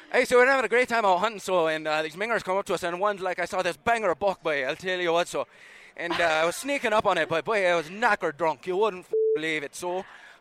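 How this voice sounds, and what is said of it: Put-on Irish accent. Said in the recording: “I lived in Ireland for a year. I could do my Irish accent. ... you do your Irish accent ... You're very, very good at it.”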